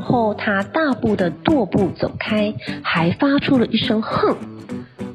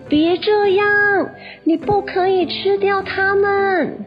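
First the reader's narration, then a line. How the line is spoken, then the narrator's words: Shouting. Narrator (Chinese): 鼹鼠大喊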